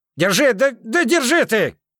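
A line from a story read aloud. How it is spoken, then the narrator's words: Yelling. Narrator (Russian): Снова заорал все тот же человек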